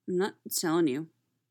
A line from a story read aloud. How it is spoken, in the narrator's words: mumbled response